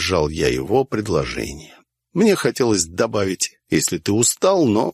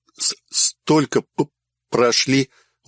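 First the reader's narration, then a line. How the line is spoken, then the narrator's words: Breathless exhale. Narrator (Russian): выдохнул Курт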